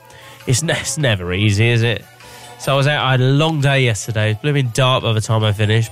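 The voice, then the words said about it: Congested, stuffy-nosed voice. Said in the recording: “my nose is bunged up... I've got a bit of a cold.”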